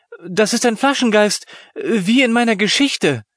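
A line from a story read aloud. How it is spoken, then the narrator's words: Exclaiming. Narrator (German): rief Lena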